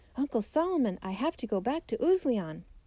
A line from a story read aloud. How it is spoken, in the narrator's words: he shouted